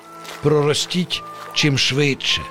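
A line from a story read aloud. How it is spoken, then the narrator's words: Father's whisper. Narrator (Ukrainian): зашепотів татусь Пустомелько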